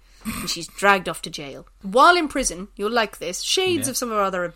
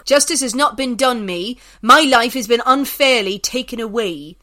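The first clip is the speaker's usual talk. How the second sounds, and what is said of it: Put-on Somerset accent. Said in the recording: “I'll try and do this in a Somerset accent.”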